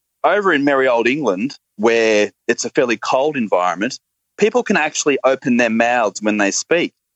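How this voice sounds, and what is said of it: Flat Australian accent. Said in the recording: “that magnificent accent. I mean, it's kind of sort of related to the British accent, but it's not really ... the Australian voice is a lot flatter, and we don't have those lilting tones”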